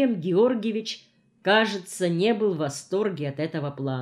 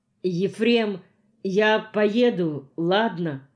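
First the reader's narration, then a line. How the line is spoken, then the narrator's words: Plain question. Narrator (Russian): спросила Пенегина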